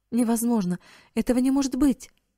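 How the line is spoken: Shocked exclamation. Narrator (Russian): воскликнула миссис Хоуп

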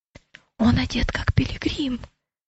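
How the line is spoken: Whisper. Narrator (Russian): прошептал Матфей

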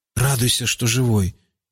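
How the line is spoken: Muttered. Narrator (Russian): буркнул Рауф

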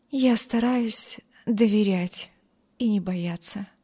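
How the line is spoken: Weak voice. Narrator (Russian): слабым голосом ответила бедная девушка

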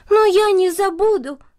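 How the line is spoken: Girl's exclamation. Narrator (Russian): воскликнула девочка

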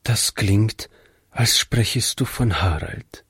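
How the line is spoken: Quiet. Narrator (German): meinte Frau Jensen leise

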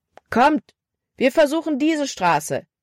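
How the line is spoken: Called out. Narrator (German): rief Caleb

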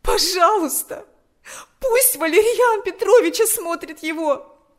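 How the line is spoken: Pleading. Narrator (Russian): взмолилась она

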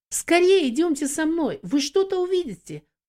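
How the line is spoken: Excited exclamation. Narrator (Russian): взволнованно воскликнула Юдив

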